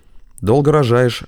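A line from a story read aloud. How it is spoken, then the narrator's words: Snort. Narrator (Russian): хмыкнул Генрих Герхардович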